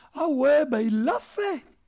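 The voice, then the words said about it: Put-on Bernese Jura accent. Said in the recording (French): “Il est beau mon accent ... j'avais un bel accent du Jura bernois”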